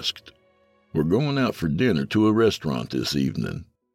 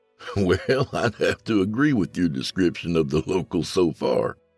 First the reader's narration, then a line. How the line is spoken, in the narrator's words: I laughed